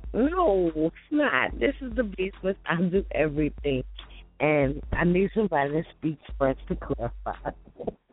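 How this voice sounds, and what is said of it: Slightly raspy voice. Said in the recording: “I'm still a little raspy”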